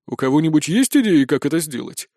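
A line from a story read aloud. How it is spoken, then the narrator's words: Thoughtful question. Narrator (Russian): задумчиво спросил Спирт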